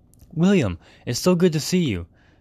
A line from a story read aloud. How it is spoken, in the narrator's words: exclaimed Alexander in a cheerful, familiar manner